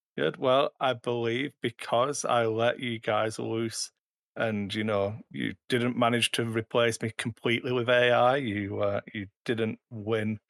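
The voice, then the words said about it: British English accent. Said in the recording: “you've recharged your British accent.”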